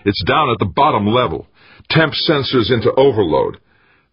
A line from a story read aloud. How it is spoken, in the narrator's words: the senior of the two shouted over the uproar